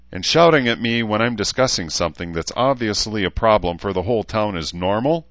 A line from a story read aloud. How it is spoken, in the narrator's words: He asked evenly